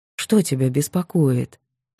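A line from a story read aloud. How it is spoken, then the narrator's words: Gentle question. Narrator (Russian): ласково спросил он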